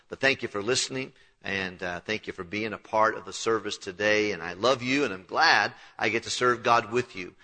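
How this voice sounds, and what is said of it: Slightly hoarse, unwell-sounding voice. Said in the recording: “my voice is a little bit inhibited today. I was struggling with a little bit of illness.”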